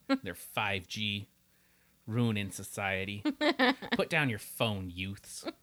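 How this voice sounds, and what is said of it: Imitates a parent's voice. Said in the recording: “Oh, I sound like my dad. ... You sound like my mom.”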